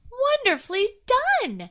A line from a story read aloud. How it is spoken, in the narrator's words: shrieked Dragonfly